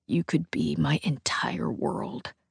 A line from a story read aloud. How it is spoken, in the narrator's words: he whispers in my ear